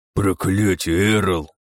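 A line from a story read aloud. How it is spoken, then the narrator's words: Sheriff groaning. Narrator (Russian): простонал шериф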